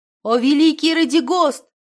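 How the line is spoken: Shouting. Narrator (Russian): крикнула

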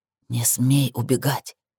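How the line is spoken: Demanding whisper. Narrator (Russian): Требовательный шепот

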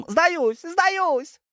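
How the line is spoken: Yell. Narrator (Russian): Так завопил один

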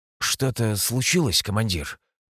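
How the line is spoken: Tired. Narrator (Russian): Устало проговорил я

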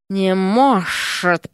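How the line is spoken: Hiss. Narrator (Russian): прошипела госпожа

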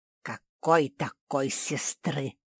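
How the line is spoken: Hissing. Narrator (Russian): зашипела Гильда

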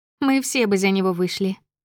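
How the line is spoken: Giggle. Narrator (Russian): хихикнула Елена

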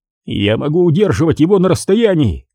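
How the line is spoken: Shouted. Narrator (Russian): крикнул Олтман товарищем

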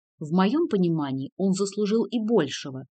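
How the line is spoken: Irritated interruption. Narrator (Russian): раздраженно перебила его Ремика

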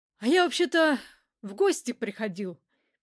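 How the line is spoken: Sad. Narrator (Russian): печально припомнил капитан

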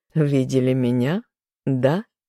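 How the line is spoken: Hmphing to himself. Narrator (Russian): хмыкнул про себя

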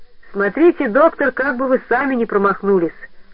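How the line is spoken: Cheerful. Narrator (Russian): сказал он весело

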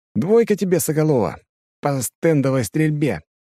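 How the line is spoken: Cheerful announcement. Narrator (Russian): радостно сообщаю я

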